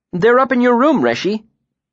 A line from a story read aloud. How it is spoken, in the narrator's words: Bast said brightly